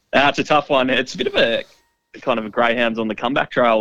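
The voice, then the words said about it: Worn, sniffly voice. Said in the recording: “Have you got a bit of the sniffle... I'm hearing a lot of splattering from you... my voice is a little bit worse for wear”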